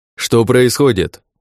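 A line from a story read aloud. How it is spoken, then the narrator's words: Orc yelling. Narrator (Russian): заорал орк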